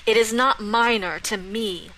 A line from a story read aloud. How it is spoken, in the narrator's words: Saskia snarled